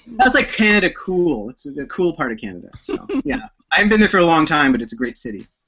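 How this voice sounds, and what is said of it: Canadian accent. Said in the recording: “you are from the Great White North, judging by your accent”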